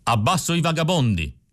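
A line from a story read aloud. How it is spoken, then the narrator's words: Shout. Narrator (Italian): gridò Spaventa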